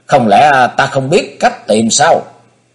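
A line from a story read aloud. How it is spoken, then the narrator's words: Angry shout. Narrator (Vietnamese): Công Tôn Ngọc nổi giận quát lên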